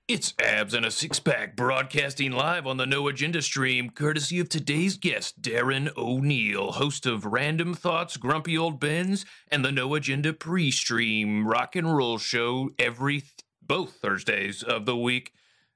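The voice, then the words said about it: Announcer-style radio voice. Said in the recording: “how's my radio voice? Is my radio voice as good as yours”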